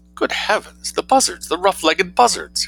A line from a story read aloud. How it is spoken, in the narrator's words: exclaimed Mrs